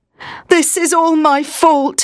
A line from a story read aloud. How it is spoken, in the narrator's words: he moaned